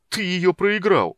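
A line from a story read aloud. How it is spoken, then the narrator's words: Groaning. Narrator (Russian): простонал Танин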